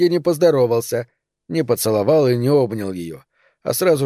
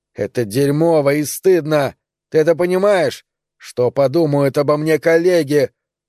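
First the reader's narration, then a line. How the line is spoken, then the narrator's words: Louder mocking shout, imitating woman. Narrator (Russian): Он закричал еще громче, передразнивая въедливый женский голос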